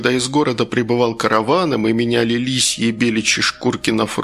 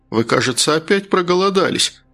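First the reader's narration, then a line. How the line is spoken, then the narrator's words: Loud laughter. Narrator (Russian): расхохотался Гастон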